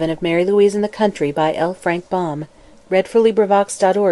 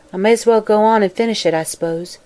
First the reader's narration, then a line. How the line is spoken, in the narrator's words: with a sigh, she said